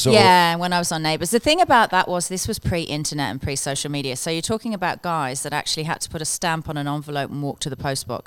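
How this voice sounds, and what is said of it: Australian accent with English undertones. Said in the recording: “you have an English accent somewhere in the back of that Australian accent”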